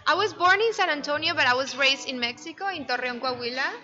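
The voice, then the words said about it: Interesting Norteño-sounding English accent. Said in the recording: “I Norteña. Thought that accent sounded a little more like Kerrville ... people always say I have an interesting, different accent”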